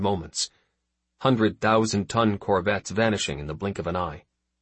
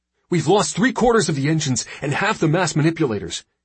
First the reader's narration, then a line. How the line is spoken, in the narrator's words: his engineer barked